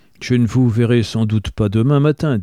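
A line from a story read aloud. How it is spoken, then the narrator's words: Plain. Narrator (French): dit Pils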